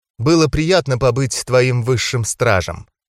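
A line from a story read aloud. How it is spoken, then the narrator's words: Affectionate. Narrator (Russian): ласково проговорила девушка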